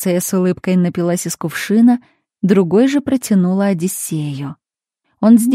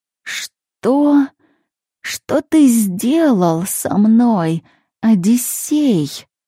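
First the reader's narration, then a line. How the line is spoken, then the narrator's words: Hoarse, changing voice. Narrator (Russian): прохрипела меняющимся голосом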